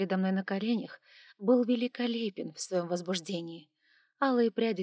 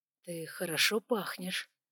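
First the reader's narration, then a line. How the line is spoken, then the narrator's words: Man's confiding tone. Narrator (Russian): доверительным тоном поделился со мной мужчина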